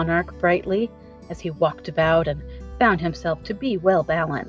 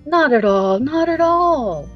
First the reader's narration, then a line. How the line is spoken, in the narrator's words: replied the Scarecrow gaily